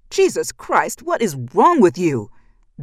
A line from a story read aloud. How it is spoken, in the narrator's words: Ben shouted